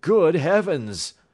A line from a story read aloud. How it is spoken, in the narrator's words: I cried